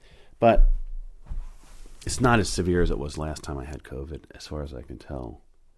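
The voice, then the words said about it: Hoarse, worn-out voice. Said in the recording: “my voice is kind of shot”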